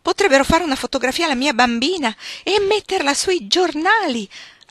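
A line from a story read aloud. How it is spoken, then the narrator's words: Exclaimed. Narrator (Italian): aveva esclamato la signora Willand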